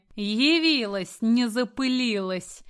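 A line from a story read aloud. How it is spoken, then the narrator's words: Snide, mocking. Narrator (Russian): ехидно прокомментировала ее появление Галина Петровна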